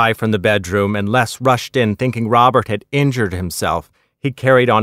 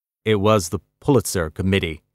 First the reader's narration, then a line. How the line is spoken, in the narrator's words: he said evenly